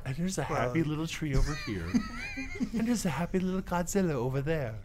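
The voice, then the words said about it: Soft, gentle Bob Ross impression. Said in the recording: “You sound like Bob Ross.”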